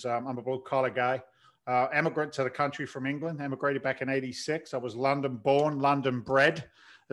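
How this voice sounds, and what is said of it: London accent with slight Boston twang. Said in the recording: “there's a little bit of Boston attached to it... you can't help but pick it up a little bit of the twang”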